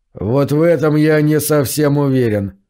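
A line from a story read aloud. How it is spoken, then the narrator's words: Gloomy grumble. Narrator (Russian): мрачно проворчал он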